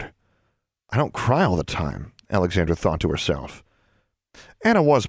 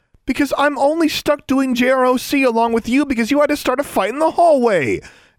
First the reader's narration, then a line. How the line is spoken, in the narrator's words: Alexandra shouted